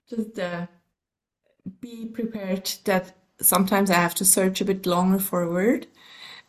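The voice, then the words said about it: American-learned English accent. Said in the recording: “as you might hear on my accent, I have learned my English in the States, in Colorado to be exact”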